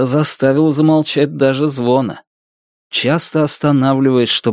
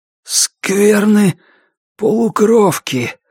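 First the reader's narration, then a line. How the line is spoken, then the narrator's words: Forced out with strain. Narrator (Russian): смог выдавить он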